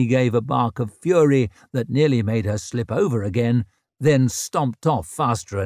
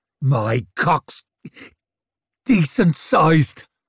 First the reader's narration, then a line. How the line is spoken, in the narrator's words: he spat